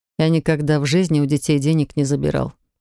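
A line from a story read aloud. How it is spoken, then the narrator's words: Skeptical snort. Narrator (Russian): хмыкнул Максим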